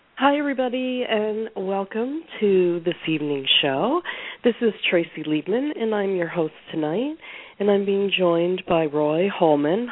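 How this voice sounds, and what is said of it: Voice roughened by a cold. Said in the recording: “minus this cold. So excuse my voice ... it's kind of sounds worse than it actually feels”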